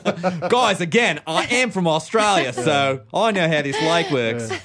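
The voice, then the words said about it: Weak put-on Australian accent. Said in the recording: “You could do an Australian accent. ... But not a good one. ... It's a hard accent.”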